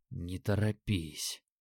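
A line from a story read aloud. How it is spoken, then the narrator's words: Muttered through clenched teeth. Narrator (Russian): пробормотал себе под распухший нос, стиснув зубы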